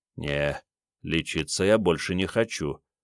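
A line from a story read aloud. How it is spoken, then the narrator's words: Said under breath. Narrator (Russian): вполголоса сказал Андрей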